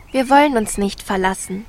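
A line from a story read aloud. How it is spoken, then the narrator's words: Plain. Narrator (German): antwortete Rosenrot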